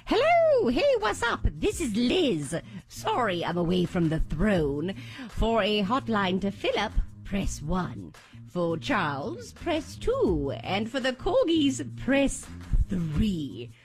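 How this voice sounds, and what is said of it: Put-on English accent. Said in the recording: “Let me see if I can get my English accent already.”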